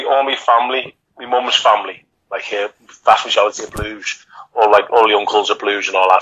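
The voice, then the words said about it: Liverpool accent. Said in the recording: “you can tell by the accent where you're from ... What side of Liverpool did you sit on?”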